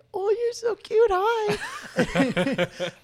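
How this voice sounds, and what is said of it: Cutesy baby-talk voice for a dog. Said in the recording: “I have, like, my dog voice. Like, you know, you have, like, a baby voice. I have, like, a dog voice.”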